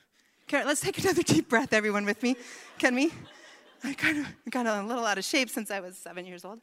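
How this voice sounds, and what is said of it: Out of breath, breathless speech. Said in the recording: “as I'm out of breath.”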